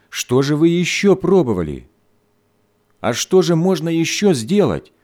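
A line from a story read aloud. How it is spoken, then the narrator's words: Angry mother exclaiming. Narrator (Russian): сердито воскликнула мать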